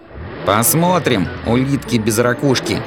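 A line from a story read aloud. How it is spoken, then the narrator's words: Plain. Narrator (Russian): ответил Фази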